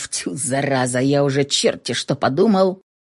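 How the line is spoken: Muttering. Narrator (Russian): пробормотав

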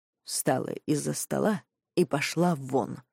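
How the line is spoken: Calm, firm father. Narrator (Russian): произносит отец спокойно, но бескомпромиссно

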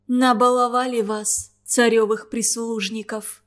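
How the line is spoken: Angry but unsure whisper. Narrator (Russian): Сердито и неуверенно, потому что не испытывала искренней злости, прошептала девушка

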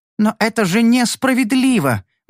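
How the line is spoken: Pleading. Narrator (Russian): взмолилась Инес

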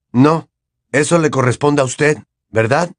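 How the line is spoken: Snapping retort. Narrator (Spanish): le espetó Harry

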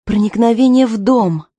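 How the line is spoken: Exclaiming. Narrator (Russian): воскликнула Аманда

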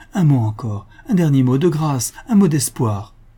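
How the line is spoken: Exclaiming. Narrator (French): s'écria-t-il

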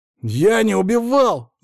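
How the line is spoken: Shouted. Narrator (Russian): закричал Волков

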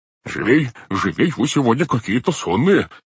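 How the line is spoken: Brisk exclamation. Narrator (Russian): воскликнул дядя Монти

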